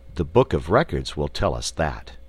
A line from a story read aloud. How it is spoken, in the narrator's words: answered the wizard